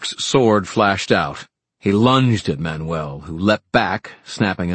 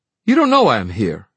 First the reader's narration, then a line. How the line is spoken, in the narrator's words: she snapped